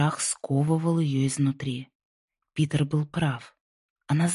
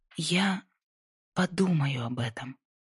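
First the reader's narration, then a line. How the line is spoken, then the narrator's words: Quiet, inwardly breaking. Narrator (Russian): тихо сказала, чувствуя, как внутри что-то трескается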